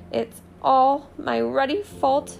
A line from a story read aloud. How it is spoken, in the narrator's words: he sobbed, his face in his hands